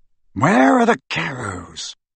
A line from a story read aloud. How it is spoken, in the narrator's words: he asked quietly